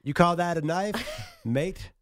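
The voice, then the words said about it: Bad put-on Australian accent. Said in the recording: “Do that impersonation again?... It's so bad. It's always so bad.”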